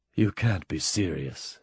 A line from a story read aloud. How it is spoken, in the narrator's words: said Mike, in a soft voice that was suddenly quite sober